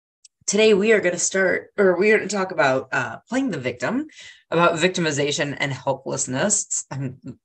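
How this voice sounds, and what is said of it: Raspy, congested voice. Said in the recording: “I am feeling a little under the weather. So if I sound raspy, ... I've got some congestion going on”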